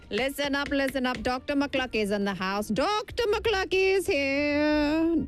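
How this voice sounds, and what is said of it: Put-on comic character accent. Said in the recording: “I don't know where this accent comes from”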